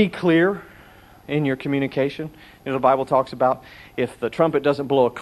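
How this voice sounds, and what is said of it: Usual voice. Nothing is said of it.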